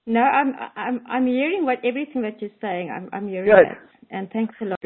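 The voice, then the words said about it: Pretty foreign accent. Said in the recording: “Little accent ... she has a pretty accent.”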